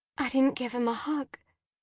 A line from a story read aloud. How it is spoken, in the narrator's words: Jen whispered